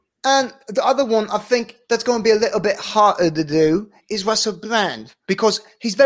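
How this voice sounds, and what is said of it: Usual voice. Nothing is said of it.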